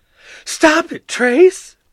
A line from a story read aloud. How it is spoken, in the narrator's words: screamed giggling